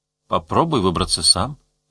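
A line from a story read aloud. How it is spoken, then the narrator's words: Gentle. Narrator (Russian): мягко сказал он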